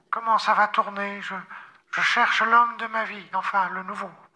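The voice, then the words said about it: Disguised voice with put-on accent. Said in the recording (French): “je maquille ma voix et je prends un accent”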